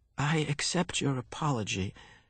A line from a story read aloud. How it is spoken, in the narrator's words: Jonas replied shakily